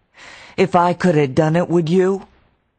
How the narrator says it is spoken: he cried

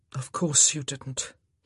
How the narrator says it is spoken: he murmured

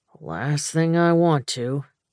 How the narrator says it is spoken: he drawled

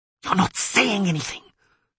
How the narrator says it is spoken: she hissed

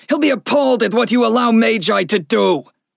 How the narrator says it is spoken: the man snarled

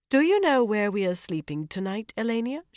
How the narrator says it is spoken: she said coolly

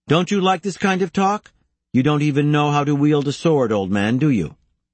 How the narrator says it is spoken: annoy the young samurai, who finally called out

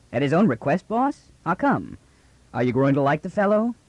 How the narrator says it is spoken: He chuckled

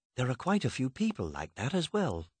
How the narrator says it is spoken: Alice whispered in return

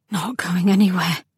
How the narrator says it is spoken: Cam murmured wetly and thickly

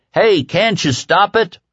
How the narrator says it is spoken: Jack Jackson hollered

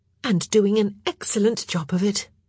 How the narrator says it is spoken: Sophie said brightly

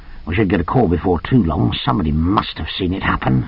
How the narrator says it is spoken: he muttered

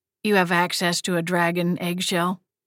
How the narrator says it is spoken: Mama asked quietly

